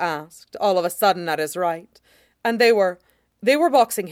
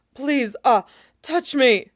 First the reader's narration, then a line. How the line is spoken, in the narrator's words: gasping out